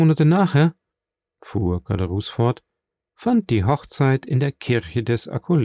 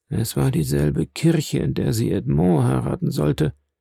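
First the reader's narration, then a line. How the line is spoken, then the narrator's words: Abbé murmuring. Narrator (German): murmelte der Abbé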